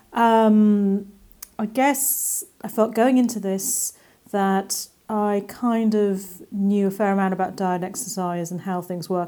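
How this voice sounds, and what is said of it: English accent. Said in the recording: “I live in England, as you can probably hear from my accent”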